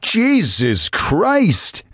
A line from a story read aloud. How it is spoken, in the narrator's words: shouted